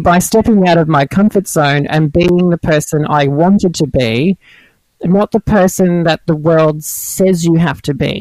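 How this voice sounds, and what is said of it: Brooklyn-sounding American accent. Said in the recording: “You sound like you're from Brooklyn.”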